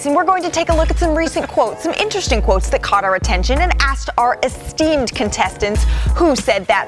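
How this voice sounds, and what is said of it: Game show host voice. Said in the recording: “put on my game show voice”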